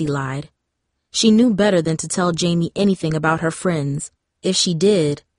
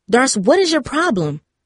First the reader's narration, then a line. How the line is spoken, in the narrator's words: Jamie asked, raising her voice